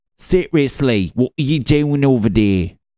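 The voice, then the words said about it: Speaks in a put-on accent. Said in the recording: “what accent was that?”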